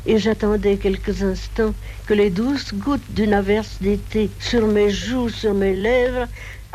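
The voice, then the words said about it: Distinctive regional French accent. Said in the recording (French): “c'est Colette qui parle comme ça ... qui parlait avec cet accent”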